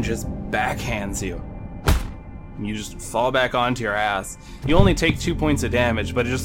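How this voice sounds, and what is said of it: Usual voice. Nothing is said of it.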